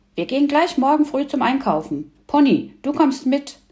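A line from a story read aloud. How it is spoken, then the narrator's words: Satisfied call. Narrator (German): rief Emil zufrieden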